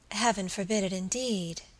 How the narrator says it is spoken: she murmured

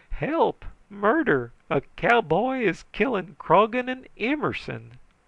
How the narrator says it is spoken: bleeding freely, shrieking

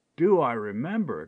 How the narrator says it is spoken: exclaimed Major Bradley

